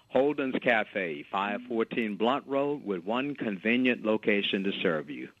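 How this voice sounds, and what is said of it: Announcer-style radio voice. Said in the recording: “I go back to my radio voice”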